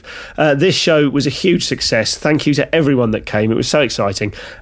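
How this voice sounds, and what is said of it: Scratchy voice. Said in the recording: “my voice is a little bit scratchy. I'm afraid I'm quite ill at the moment”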